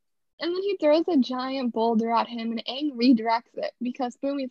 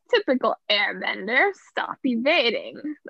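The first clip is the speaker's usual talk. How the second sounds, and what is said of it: Imitates a movie character's voice. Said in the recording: “That was my movie impression.”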